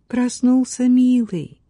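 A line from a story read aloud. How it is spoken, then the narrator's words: Tender purr. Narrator (Russian): промурлыкала она мальчику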